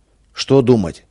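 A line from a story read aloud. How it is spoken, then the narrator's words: Angry. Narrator (Russian): сердито сказала Юля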